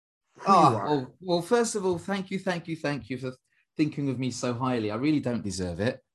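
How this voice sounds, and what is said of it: Australian and East London accent. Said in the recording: “accent,⟧ it's Sydney via East London ... Via East London, Ilford, which is really Essex”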